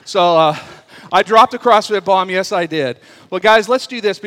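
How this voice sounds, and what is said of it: Out of breath, panting. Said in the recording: “I'm out of breath from coming up the stairs.”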